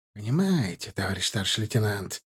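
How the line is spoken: Hiss. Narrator (Russian): прошипел из-за спины Шарипова Рюмшин

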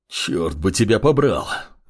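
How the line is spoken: Hoarse wheeze, stranger. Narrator (Russian): прохрипел неизвестный

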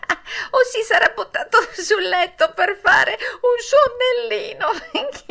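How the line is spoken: Added, laughing loudly. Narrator (Italian): soggiunse un altro ridendo più forte che mai

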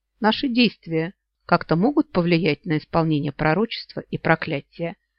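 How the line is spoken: Even-voiced question. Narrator (Russian): ровным голосом поинтересовался Йен

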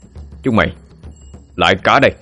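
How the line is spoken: Shouting. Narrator (Vietnamese): quý quát lên

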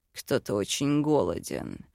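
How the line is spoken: Purring tone. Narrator (Russian): мурлыкнул Йорн

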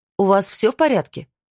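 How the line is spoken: Shouted. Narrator (Russian): крикнула

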